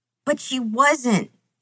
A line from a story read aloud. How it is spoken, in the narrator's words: Sam sobs